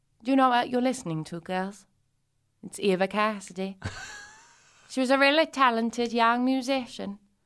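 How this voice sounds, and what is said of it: Posh upper-class imitation of mother. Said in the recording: “I make my mum sound as if she's from Tatler magazine”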